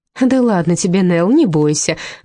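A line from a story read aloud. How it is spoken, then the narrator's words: Laughing. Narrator (Russian): рассмеялась Ирен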